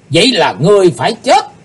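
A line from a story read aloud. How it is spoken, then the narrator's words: Loud group shout. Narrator (Vietnamese): 12 vị sứ giả Hải Âu quát to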